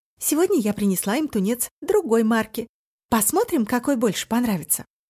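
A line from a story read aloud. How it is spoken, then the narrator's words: Plain. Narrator (Russian): сказала Хаин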